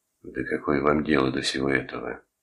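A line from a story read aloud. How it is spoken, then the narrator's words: Hoarse question. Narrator (Russian): хрипло спросил Торн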